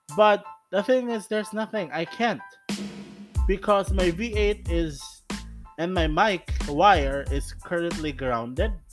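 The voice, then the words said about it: Shouting into phone microphone. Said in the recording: “that's the reason why I'm shouting for audio users. ... That's the reason why I am shouting”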